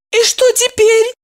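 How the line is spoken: Frightened question. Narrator (Russian): Испуганно спросила Евдокия

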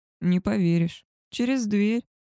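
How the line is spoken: Laughing. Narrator (Russian): рассмеялся волк

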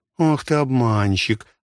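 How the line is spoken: Laughing. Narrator (Russian): засмеялась она

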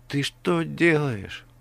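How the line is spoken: Moaned. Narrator (Russian): простонала Алиса

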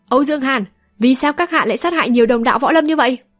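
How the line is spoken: Deep stern demand. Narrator (Vietnamese): Dù Lòng Nhất Kiếm lại trầm giọng quát hỏi

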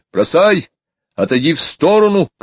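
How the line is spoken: Shouting. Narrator (Russian): кричал

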